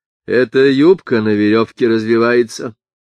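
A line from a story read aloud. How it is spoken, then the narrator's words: Plain. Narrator (Russian): сказал Эстер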